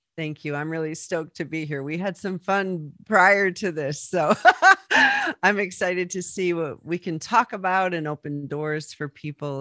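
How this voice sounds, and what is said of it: Raspy, rough voice. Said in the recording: “I've got Arizona allergies. So I woke up this morning sounding like I had bourbon and cigarettes for breakfast ... my raspy voice.”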